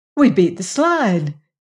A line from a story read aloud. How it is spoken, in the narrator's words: she cried